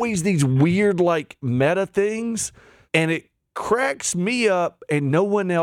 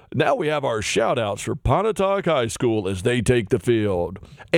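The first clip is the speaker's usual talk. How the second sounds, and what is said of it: Mock announcer radio voice. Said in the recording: “my radio voice is better than this guy's radio voice.”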